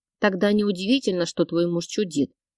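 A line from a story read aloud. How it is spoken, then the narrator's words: Grumbled. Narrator (Russian): пробурчала я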